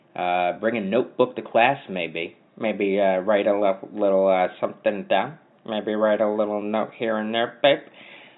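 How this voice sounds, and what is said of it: Poor Dennis Miller impression. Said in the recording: “Terrible Dennis Miller impression.”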